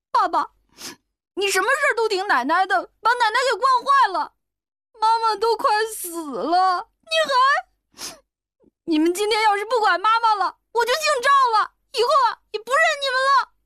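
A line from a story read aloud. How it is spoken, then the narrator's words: Crying child. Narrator (Chinese): 小孩子哭道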